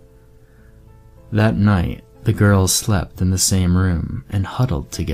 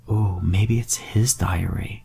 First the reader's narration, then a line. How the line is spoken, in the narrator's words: Jenny whispered